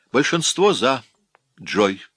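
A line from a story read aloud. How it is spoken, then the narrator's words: Plain. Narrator (Russian): сказал он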